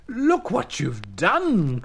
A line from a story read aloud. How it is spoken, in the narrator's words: cried Anansi